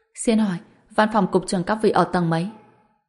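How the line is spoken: Smiling, said. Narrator (Vietnamese): Hàn Đông khẽ mỉm cười, nói

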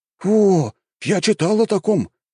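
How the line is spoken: Surprised exclamation. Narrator (Russian): удивленно воскликнул один из них

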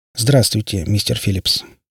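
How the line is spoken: Pleasant, businesslike tone. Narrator (Russian): произнес он приятным, но в то же время деловым тоном

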